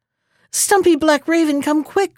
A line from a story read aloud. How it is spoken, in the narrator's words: cried he